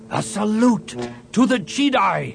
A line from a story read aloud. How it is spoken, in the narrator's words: he shouted